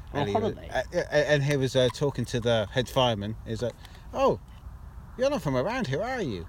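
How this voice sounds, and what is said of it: Put-on accent meant as Mancunian. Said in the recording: “that's supposed to be Manchester accent”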